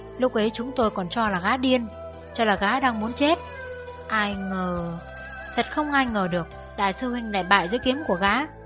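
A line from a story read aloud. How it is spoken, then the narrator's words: Sighing, continuing the story. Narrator (Vietnamese): Tiểu Triều thở dài kể tiếp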